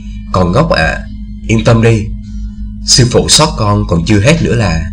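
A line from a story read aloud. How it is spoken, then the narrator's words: Smiling. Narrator (Vietnamese): Tô Như mỉm cười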